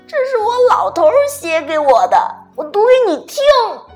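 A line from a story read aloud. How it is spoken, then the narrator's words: Old woman, loud. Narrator (Chinese): 老太太……大声说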